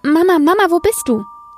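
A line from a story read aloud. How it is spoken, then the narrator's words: Calling out. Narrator (German): Es rief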